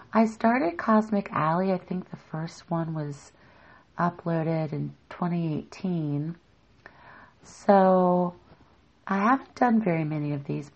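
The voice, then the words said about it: Voice going, strained. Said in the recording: “losing my voice”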